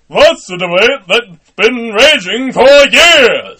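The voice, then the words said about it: Superman character voice. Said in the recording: “Superman impression ... That is fucking perfect.”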